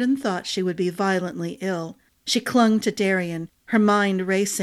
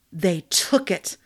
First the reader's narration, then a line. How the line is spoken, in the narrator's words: Glynna growled